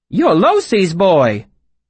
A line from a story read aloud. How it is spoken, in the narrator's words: she looked surprised for a moment, then exclaimed